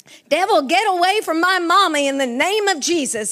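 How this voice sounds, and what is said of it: Midwestern accent. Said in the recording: “she had a Midwestern accent”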